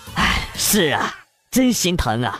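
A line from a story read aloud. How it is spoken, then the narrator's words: Sighing. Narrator (Chinese): 老丈人叹了口气说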